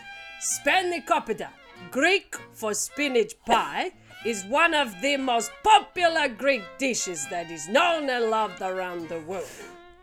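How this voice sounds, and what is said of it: Put-on Italian-sounding accent. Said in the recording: “that's Italian... I don't know what accent this is... Italian again”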